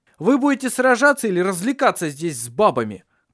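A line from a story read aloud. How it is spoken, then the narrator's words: Shout. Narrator (Russian): крикнул он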